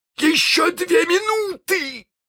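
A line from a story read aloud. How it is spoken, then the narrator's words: Shout. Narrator (Russian): закричал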